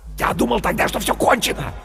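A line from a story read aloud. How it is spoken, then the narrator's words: Fervent whisper. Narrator (Russian): горячо зашептал Бергман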